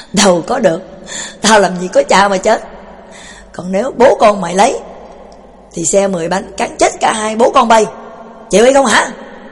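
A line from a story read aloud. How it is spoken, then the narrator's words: Old man laughing loudly. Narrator (Vietnamese): Lão cục lại cười phá lên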